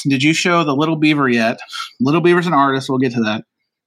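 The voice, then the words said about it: Out of breath. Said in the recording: “I'm out of breath because I'm old”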